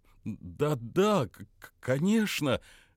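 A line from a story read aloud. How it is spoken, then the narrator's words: Stammering reply. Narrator (Russian): запинаясь, ответил Метки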